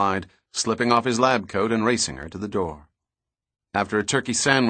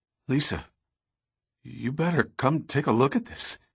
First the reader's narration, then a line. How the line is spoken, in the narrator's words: he stammered